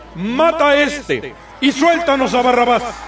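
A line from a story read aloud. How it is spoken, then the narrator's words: Crowd shouting in unison. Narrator (Spanish): empezaron a gritar todos a una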